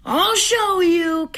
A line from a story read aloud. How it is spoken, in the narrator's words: Cavalier Tomato bellowed